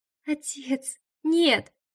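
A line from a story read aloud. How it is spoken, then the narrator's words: Sobbing. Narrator (Russian): продолжая всхлипывать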